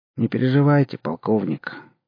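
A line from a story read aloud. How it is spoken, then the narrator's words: Soft, from behind. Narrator (Russian): мягко сказал за спиной Ломакин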